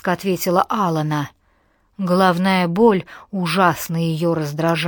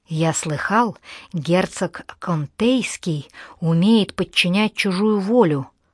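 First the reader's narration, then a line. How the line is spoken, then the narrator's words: Whisper. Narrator (Russian): зашептал он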